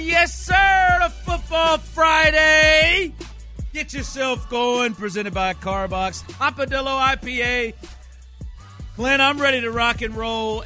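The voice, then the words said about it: Loud, shouting hype delivery. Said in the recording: “you're screaming at me”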